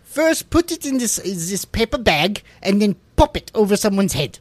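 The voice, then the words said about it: Cartoonish put-on German accent. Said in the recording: “you add a German accent, immediately it becomes cartoonish”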